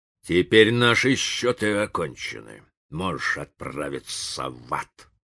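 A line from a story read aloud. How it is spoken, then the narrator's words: Grumbling. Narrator (Russian): проворчал индеец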